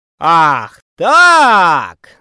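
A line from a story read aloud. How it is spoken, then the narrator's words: Yelling. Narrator (Russian): заорал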